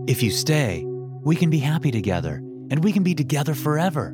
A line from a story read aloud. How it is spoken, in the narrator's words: Vincent said excitedly